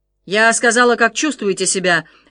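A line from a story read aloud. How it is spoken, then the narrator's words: Barked. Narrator (Russian): рявкнула Энджи на Дезире на другом конце комнаты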